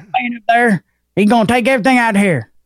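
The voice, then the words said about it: Put-on Southern hillbilly accent. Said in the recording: “you got to say I'm it in a southern accent ... You got to say it in a hillbilly accent.”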